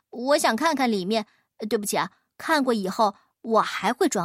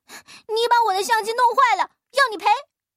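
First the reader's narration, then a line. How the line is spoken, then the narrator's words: Crying, shouting. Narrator (Chinese): 哭着嚷道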